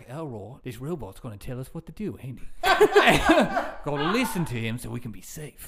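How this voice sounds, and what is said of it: Deep lower-class English accent. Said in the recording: “looked and sounded like Vinnie Jones... a very, very big man with like that lower side English accent”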